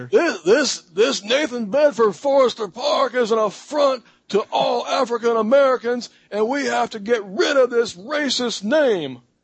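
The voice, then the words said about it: Imitates another person's voice. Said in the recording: “you have a pretty good Al Sharpton accent ... Do it how he was doing on the news”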